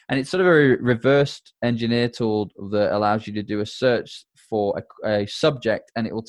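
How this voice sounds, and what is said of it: Thick accent. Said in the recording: “My accent's pretty thick, so you might not be able to understand that”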